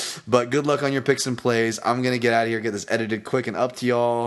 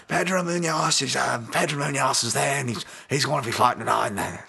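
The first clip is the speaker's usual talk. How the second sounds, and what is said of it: Bad put-on British accent. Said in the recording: “Sorry, that was terrible. Michael Bisping accent ... my homies across the pond with that horrible accent”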